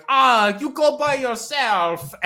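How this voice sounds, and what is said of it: Bad put-on Swedish accent. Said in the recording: “like an Italian person doing a bad Swedish accent”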